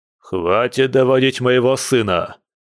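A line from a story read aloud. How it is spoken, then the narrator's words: Loud bark. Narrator (Russian): гаркнул Илья Николаевич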